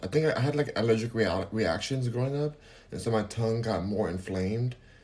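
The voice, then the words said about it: Speaks with a lisp. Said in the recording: “I have like a permanent lisp in a way. Um, people think I have an accent. I'm from California, so maybe that's the accent. But people think I'm like from the Caribbean.”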